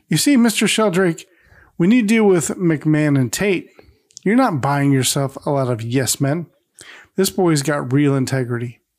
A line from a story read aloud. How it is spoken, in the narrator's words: Larry awkwardly chuckles as he says